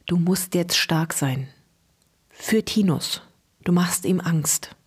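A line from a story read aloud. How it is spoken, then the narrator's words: Whisper in ear. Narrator (German): flüsterte ihr ins Ohr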